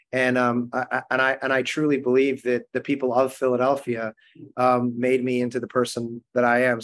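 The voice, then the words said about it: Regional Philadelphia accent. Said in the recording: “dial back the accent at all? ... How do you say water? Water.”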